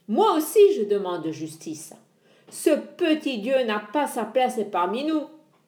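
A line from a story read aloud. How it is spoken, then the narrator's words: Sea god growling. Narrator (French): grogna le dieu des mers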